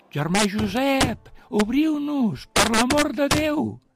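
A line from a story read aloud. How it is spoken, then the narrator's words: Group shouting. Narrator (Catalan): tots començaren a cridar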